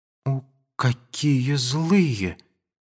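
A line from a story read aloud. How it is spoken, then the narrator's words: Timid. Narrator (Russian): сказала она робко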